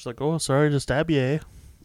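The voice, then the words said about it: Put-on Canadian accent. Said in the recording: “that was my Canadian accent.”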